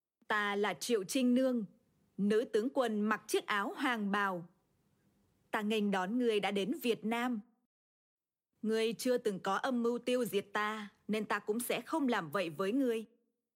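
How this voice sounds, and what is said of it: Vietnamese with northern Hanoi accent. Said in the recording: “She speaks modern Vietnamese with a northern or Hanoi accent.”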